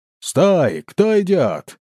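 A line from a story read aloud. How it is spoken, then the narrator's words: Sentry's challenge. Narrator (Russian): окликнул часовой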